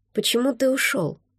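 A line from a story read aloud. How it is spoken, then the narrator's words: Quiet, no resentment. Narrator (Russian): Спросила тихо, но уже без обиды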